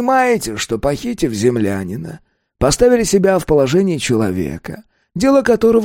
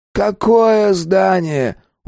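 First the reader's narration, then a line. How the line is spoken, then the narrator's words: Tired colonel asking. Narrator (Russian): устало спросил полковник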